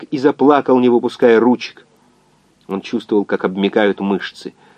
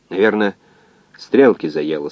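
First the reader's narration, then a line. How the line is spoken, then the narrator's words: Calm. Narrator (Russian): спокойно сказал координатор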